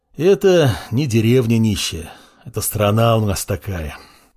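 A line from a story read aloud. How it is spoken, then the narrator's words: Sigh. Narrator (Russian): вздохнул Маркус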